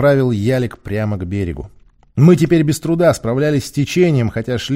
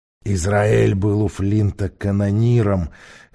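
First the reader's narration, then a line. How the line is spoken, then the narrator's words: Hoarse. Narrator (Russian): хрипло произнес Грей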